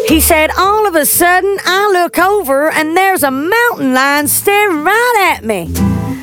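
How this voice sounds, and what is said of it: Deliberately bad put-on American accent. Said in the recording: “I'm going to do the worst American accent”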